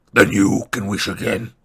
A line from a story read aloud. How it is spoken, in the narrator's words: said the growling voice